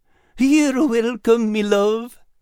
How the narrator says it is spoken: Al said dreamily

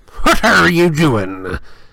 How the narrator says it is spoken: Filch snarled suspiciously

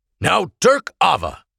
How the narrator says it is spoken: Oral snapped

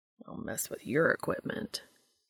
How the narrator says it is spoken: Cass grumbles

